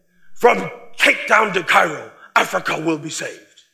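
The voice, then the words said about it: Imitated German accent. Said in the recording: “He'd say that in his German accent.”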